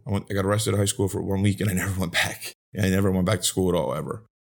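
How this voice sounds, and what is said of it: South Philadelphia accent. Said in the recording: “I ain't got the most intelligent dialect here. I'm a South Philly welfare kid”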